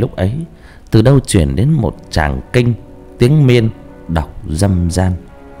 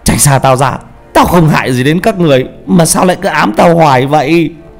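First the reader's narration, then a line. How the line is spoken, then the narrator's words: Desperate scream. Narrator (Vietnamese): Vũ gào lên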